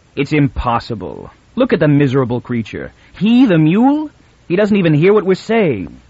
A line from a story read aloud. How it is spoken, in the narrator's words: Taran said harshly and with finality